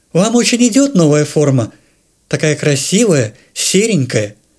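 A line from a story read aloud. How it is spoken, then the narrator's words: Sing-song. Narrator (Russian): Адель нараспев сообщила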